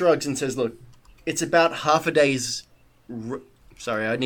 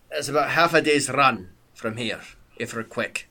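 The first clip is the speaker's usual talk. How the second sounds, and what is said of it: Put-on character accent. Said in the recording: “I need to put the accent back on.”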